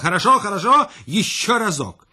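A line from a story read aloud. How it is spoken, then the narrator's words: Shouting. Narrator (Russian): Великий князь закричал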